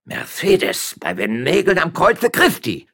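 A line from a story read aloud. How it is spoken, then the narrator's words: Man shouting. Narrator (German): schrie der Stadtrichter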